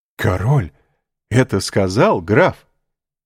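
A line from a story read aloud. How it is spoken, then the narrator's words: Delighted exclamation. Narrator (Russian): воскликнул восхищенный Вильфор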